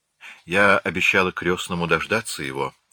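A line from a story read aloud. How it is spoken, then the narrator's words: Sad. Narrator (Russian): начала она печально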